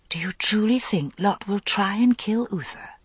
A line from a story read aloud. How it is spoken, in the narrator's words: She whispered